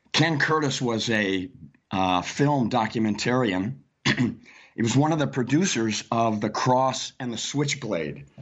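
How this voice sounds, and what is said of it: Hoarse, fading voice. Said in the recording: “I'm losing my voice this morning.”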